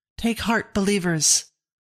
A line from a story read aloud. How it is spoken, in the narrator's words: Elder Benjamin cried